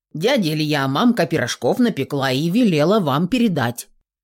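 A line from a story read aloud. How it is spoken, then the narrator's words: Boy speaking solemnly. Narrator (Russian): сообщил степенно пацан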